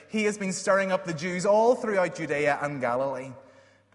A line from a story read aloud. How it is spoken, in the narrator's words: One of the priests shouted